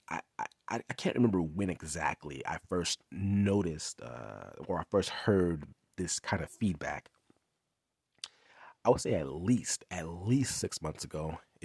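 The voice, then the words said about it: Congested, nasal voice. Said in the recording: “I got a little bit of congestion ... the congestion that you may hear in my voice, talking from my nasal”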